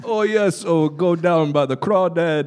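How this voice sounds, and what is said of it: German-accented voice doing Cajun impression. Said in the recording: “can you do Werner Herzog doing a Cajun impression?”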